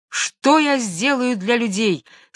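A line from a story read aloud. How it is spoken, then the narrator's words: Shouted louder than thunder. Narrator (Russian): сильнее грома крикнул Данко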